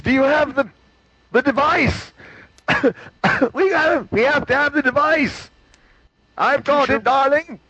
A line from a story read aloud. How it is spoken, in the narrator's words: Maureen McLaughlin says, and screams